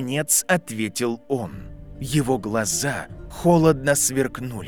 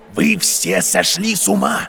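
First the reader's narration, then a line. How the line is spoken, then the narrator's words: Shouting. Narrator (Russian): закричал Альбус Дамблдор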